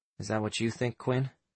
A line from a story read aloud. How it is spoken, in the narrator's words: Sam asked in a quiet voice